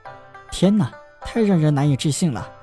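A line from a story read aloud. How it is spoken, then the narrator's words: Amazed exclamation. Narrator (Chinese): 他惊叹道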